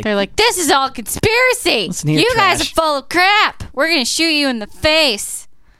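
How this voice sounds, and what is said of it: Mock voice of hostile guards. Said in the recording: “That's actually a good impression.”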